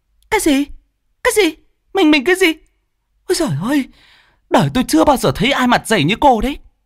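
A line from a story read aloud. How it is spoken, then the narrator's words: Choked, indignant hissing. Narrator (Vietnamese): Cô Hồng uất đến nghẹn cả cổ, như rít lên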